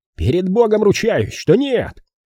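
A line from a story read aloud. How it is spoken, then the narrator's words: Yelled. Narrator (Russian): завопил Питер Пейнтер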